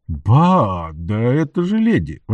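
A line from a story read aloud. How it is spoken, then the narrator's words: Exclaiming. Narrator (Russian): воскликнул он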